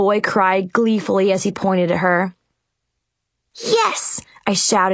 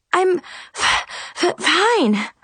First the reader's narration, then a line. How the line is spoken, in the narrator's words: I panted